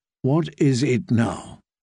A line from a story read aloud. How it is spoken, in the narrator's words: she said, in a dangerously soft voice